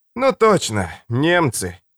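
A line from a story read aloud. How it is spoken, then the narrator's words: Sigh. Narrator (Russian): вздохнул лежавший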